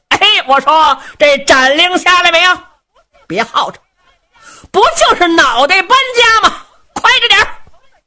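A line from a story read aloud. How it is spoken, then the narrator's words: Shouting from outside. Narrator (Chinese): 程大爷在辕门外头喊上了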